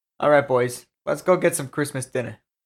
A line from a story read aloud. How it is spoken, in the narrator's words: Froggy said with a chuckle